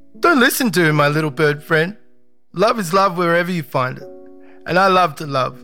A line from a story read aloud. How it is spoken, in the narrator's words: Putu called out